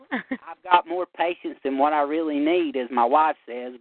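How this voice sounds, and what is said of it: Eastern Kentucky Southern accent. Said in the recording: “I love your accent, by the way... Is it Kentucky?... Eastern Kentucky, Southeastern.”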